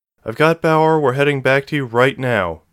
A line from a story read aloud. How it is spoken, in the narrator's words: she said